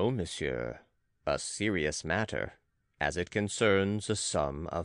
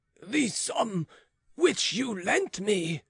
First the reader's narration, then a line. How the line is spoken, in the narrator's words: cried the cardinal, growing pale